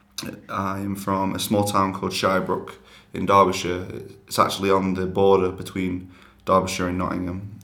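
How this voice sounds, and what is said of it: English accent, slow, sounds posh. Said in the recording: “my accent is similar to most people that I know down south. I take a lot more time talking ... People often say that I sound posh”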